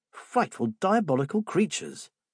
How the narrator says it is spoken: the young Joe cried

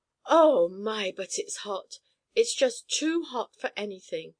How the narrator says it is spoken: cried Chako, one of the monkeys in the circus cage

